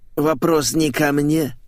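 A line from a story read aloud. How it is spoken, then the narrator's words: Parrot snorting. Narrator (Russian): фыркнул попугай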